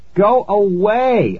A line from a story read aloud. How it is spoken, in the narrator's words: I shouted